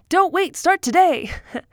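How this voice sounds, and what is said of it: Old-timey radio announcer voice. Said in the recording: “old timey radio voice”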